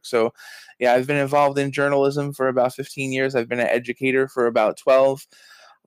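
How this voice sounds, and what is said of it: New York accent. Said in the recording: “do I detect a New York accent there? ... Yes, born and raised in uh, good old Brooklyn, New York.”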